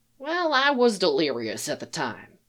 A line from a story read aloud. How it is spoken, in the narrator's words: Eli said